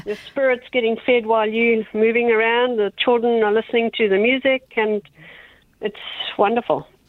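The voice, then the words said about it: South African accent. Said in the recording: “It sounds like you've got a South African accent there as well.”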